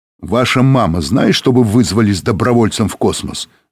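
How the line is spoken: Plain question. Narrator (Russian): спросил Быков

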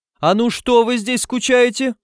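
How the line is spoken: Yelling. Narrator (Russian): заорал он

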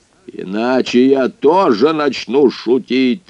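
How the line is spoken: Bark. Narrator (Russian): рявкнул

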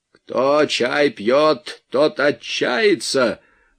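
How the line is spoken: Announced. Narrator (Russian): объявил Вайнгартен

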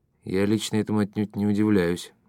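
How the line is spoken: Plain. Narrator (Russian): сказал Дауги

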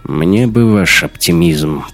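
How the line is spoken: Grumbling. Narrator (Russian): проворчал Раттенхубер

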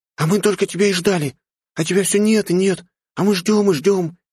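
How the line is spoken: Cheerful rapid chatter. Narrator (Russian): весело тараторила она

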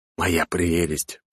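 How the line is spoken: Whisper. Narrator (Russian): прошептал

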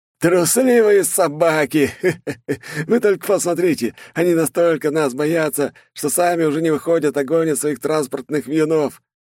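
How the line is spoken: Manic laughter. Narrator (Russian): Смеялся, как сумасшедший

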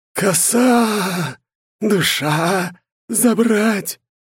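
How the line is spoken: Hollow, damp, grave-like voice. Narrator (Russian): вымолвил он за могильным сырым голосом

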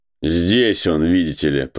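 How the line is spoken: Sarcastic. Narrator (Russian): произнес голос язвительно

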